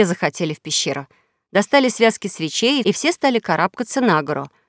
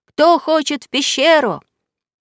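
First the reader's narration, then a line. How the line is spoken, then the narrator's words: Distant shout. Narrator (Russian): кто-то крикнул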